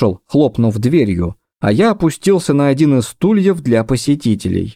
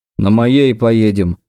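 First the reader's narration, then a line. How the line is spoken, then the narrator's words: Grumbled. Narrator (Russian): проворчал Белов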